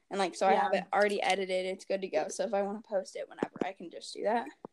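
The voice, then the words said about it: Speaking while out of breath. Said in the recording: “You can literally hear me getting out of breath because it's very warm in my room”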